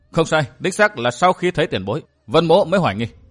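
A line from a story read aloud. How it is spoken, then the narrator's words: Cold. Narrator (Vietnamese): Vân Thiên Nhạc vẫn lạnh lùng nói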